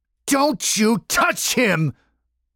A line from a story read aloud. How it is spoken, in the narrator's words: yelled